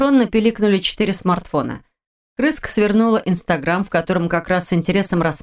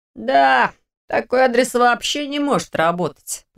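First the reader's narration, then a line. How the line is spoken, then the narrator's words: Grumbling. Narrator (Russian): проворчал Лерик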